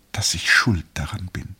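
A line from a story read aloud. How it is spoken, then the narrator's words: Whisper. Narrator (German): flüsterte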